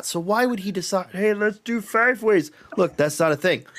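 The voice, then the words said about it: Imitates another person's voice. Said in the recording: “impression? ... my impression of this dumb guy doing the leaks”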